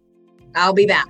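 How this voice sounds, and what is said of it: Imitates another person's voice. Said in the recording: “In my honor voice,”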